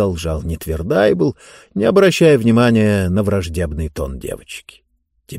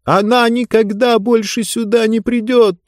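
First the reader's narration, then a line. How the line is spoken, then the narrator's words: Shouted. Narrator (Russian): закричала Диба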